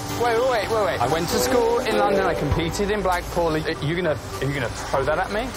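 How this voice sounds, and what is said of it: English accent. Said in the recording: “if you're Russian, why do you have an English accent?”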